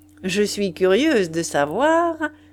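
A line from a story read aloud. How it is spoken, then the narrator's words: Cheerfully said. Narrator (French): dit gaiement Madame le chanteur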